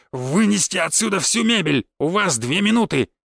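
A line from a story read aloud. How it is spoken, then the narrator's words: Loud barking. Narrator (Russian): Мышкин громогласно рявкнул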